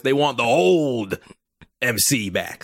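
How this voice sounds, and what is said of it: Vince McMahon impression. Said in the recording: “my Vince McMahon voice”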